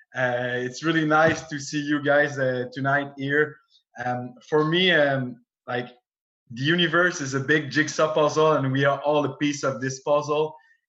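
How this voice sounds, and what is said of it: French-Canadian accent. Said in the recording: “Sorry for my accent. I'm a French-Canadian guy.”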